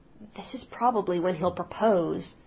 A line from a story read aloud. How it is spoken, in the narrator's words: Laura whispered to Carmilla